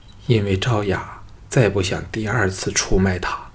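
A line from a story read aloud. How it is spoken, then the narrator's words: Mournful sighing. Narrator (Chinese): 凄然悲叹说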